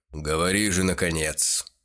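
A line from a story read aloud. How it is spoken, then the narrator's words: Angry snorting demand. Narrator (Russian): Сердито засопев, потребовал бюргермейстер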